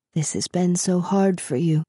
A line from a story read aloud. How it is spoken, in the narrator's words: he whispered